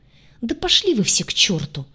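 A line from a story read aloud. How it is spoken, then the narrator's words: Exasperated exclamation. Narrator (Russian): в сердцах воскликнула я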